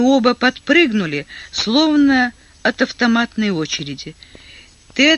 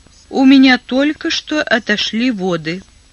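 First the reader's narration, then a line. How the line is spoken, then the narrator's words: Calm announcement. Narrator (Russian): Элизабет спокойно объявила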